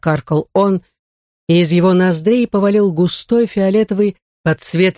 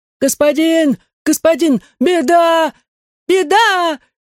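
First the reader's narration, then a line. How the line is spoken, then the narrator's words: Shrieking, panting. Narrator (Russian): визжал кривой, дыша, как загнанная собака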